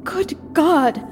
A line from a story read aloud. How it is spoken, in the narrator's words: I gasped